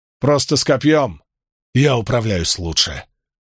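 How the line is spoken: Calm. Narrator (Russian): спокойно сказал фракиец

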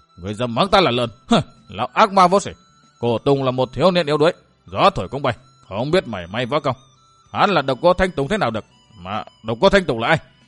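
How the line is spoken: Loud shout. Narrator (Vietnamese): Đông Hải chân quân quát to

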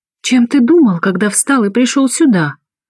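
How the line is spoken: Indignant declaration. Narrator (Russian): Возмущенно провозглашаю

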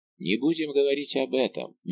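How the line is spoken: Gentle. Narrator (Russian): мягко сказал Атос

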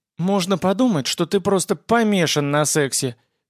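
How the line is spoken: Snide girlish voice. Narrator (Russian): ехидным голоском заметила девица

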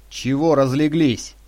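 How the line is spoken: Snapped angrily. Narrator (Russian): зло бросил он

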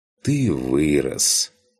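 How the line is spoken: Sighing. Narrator (Russian): вздохнул лев

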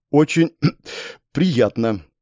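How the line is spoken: Suddenly dry voice. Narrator (Russian): произнесла она внезапно пересохшим голосом

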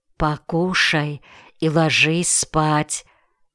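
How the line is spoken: Whisper. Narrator (Russian): шепнула

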